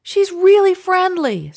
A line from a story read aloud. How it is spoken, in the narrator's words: Saoirse exclaims